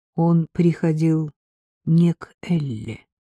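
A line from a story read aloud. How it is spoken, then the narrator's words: Slow speech. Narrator (Russian): сказала я медленно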